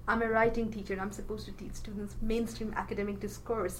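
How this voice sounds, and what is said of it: Noticeable non-native English accent. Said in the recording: “The moment I speak, you can hear my accent.”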